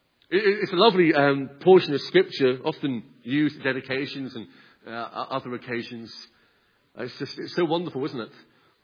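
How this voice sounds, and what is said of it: Speaks with a twang. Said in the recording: “in case you're hearing what I'm saying with my twang”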